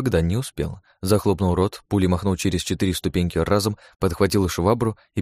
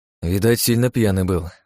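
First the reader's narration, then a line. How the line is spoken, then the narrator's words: Sighing. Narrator (Russian): вздохнул я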